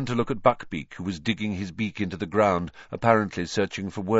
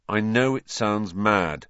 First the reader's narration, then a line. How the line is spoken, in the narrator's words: said Harry flatly